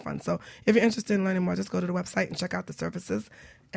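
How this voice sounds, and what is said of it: Hoarse, fading voice. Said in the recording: “my voice is going. ... It's gone. It's going.”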